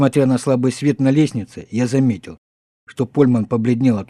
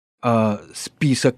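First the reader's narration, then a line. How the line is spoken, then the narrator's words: Uncertain question. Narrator (Russian): неуверенно спросил Польман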